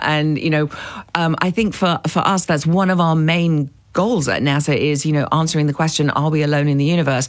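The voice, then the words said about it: British accent. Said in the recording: “you are from the UK, as many people may have guessed from your accent.”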